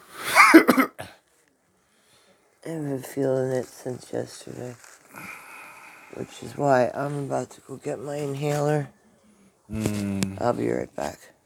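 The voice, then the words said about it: Congested voice with a cold. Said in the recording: “Excuse me for blowing my nose. ... I have a cold”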